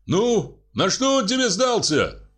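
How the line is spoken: Shouting after someone. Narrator (Russian): крикнул вслед

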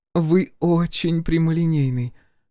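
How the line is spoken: Gentle reproach. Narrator (Russian): мягко укоряет Парвати

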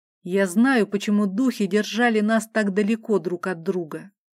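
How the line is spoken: Hoarse voice. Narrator (Russian): сипло произнес князь

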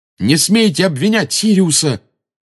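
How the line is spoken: Fierce shout. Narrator (Russian): свирепо выкрикнул Гарри

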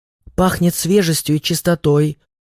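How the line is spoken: Female whisper. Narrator (Russian): прошептала

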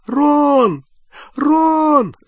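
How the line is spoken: Calling, nearly sobbing. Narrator (Russian): звала Гермиона, уже почти рыдая

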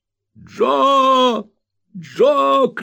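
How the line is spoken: Stout man shouting. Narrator (Russian): кричал дородный джентльмен

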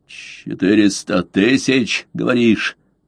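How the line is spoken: Hoarse rasp. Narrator (Russian): прохрипел он наконец

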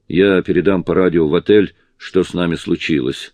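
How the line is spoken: Plain. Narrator (Russian): сказал он

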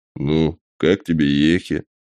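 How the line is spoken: Sad question. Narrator (Russian): Грустно спросил он

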